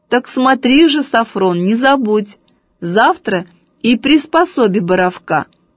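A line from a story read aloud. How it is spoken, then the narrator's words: Loud. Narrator (Russian): громко сказал Сафрону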